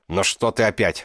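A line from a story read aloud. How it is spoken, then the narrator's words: Angry bark. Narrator (Russian): гаркнул, не отводя злых глаз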